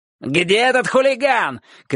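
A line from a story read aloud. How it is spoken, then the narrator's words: Shouting. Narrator (Russian): кричал Соболев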